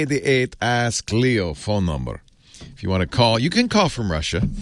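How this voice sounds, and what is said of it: Usual voice. Nothing is said of it.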